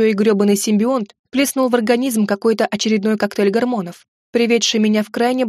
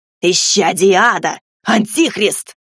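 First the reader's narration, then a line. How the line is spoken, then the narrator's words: Yelling, spitting. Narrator (Russian): Брызгая слюной, орал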